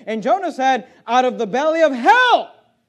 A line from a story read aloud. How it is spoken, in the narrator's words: cried I